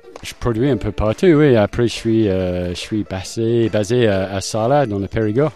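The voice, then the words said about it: Slight foreign accent in French. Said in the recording (French): “vous avez un petit accent.”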